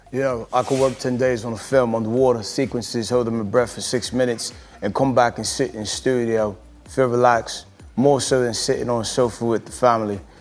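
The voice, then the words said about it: Idris Elba impression, British accent. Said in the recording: “I can't get this accent together. Can you do it? ... how good that Idris is”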